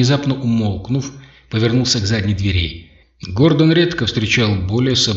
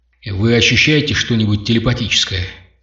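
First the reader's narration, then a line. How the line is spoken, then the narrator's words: Whispered question. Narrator (Russian): спросил он шепотом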